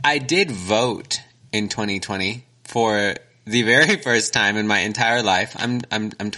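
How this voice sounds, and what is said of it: Usual voice. Nothing is said of it.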